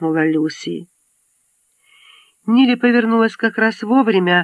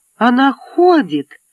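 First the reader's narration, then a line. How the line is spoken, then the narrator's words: Joyful exclamation. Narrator (Russian): радостно воскликнула Люси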